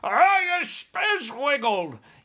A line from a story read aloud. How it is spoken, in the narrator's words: yelled the child chewer